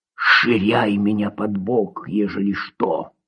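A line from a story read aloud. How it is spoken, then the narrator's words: Whisper. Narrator (Russian): шепнул он рядом сидящему парню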